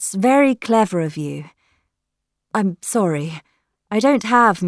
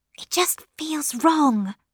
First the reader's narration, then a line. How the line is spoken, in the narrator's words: Lily whispered unhappily